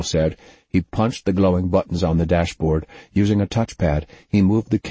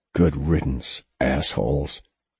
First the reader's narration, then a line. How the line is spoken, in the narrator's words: Noble muttered